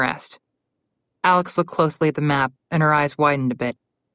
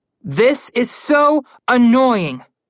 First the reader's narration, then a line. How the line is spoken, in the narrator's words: Connor yelled